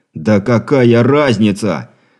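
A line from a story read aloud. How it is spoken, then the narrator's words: Shouting. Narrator (Russian): выкрикнул Андрей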